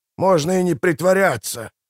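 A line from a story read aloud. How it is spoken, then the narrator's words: Growl. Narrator (Russian): прорычал Мураш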